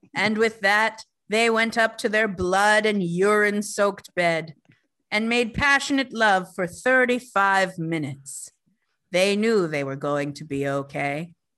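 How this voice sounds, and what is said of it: Spooky storytelling voice. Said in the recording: “my scary voice?”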